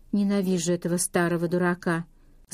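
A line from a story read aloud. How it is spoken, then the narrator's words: Plain. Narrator (Russian): сказала Скарлетт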